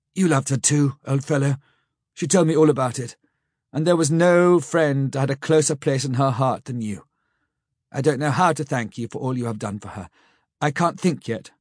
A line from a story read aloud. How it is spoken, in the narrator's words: saying huskily